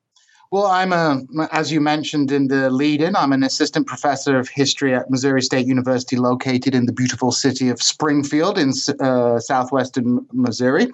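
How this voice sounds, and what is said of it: British accent. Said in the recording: “as you might guess from my accent, from the United Kingdom”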